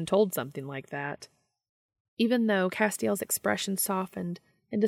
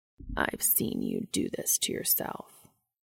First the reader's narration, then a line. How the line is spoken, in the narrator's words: the angel murmured